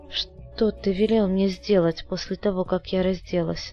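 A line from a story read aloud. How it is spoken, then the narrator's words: Soft. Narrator (Russian): мягко продолжила Людмила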